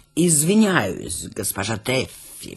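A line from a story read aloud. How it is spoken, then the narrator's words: Ingratiating question. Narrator (Russian): вкрадчиво спросил он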